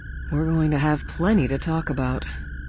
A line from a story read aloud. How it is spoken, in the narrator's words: Leia murmured